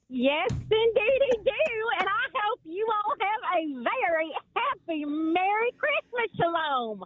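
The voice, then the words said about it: Texas accent. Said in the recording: “Love our Texas people... I can't follow that accent”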